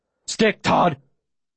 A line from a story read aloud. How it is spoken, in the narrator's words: Manchi barks